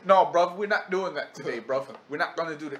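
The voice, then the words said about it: Imitated UK accent. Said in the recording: “In his UK accent.”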